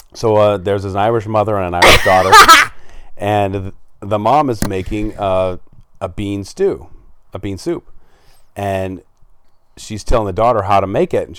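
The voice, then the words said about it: Put-on Irish accent. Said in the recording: “he is fucking genius at voices ... he can just do a really genius Irish accent.”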